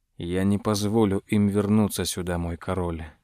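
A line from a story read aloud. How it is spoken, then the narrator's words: Mumbled. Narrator (Russian): пробормотал граф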